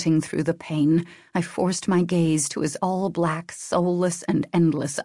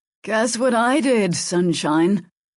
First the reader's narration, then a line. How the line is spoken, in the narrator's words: I grunted